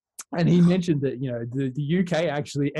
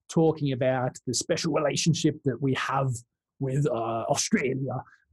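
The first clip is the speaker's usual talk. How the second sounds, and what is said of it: Boris Johnson impression. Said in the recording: “That's my best Boris impersonation.”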